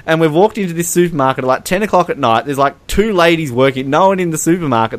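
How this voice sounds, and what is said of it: Australian accent. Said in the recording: “They hear my accent. Oh, where are you from? And I'm like, Australia.”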